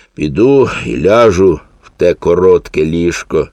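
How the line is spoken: Sighing. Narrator (Ukrainian): зітхнув він

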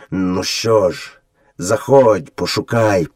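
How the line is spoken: Father wolf gloomily grumbling. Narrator (Ukrainian): похмуро буркнув батько-вовк

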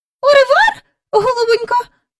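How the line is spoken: Squeaky, from next room. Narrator (Ukrainian): пропищала місіс Бріл із сусідньої кімнати

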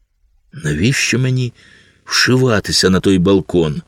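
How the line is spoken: Sighing. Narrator (Ukrainian): Карсон зітхнув

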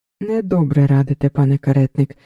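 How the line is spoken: Plain. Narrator (Ukrainian): відповів Кілінський

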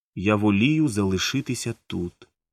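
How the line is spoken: Calm reply. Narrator (Ukrainian): спокійно відповіла

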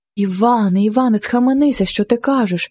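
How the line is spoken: Frightened cry. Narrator (Ukrainian): скрикнула від страху Марина

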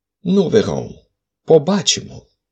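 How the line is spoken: Calm reply. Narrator (Ukrainian): спокійно відказав Холмс

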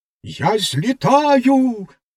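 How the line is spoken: Straining exclamation. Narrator (Ukrainian): вигукнула вона, напружилась і випросталась

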